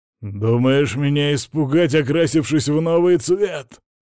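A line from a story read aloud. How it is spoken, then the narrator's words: Growling. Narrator (Russian): прорычал Ярослав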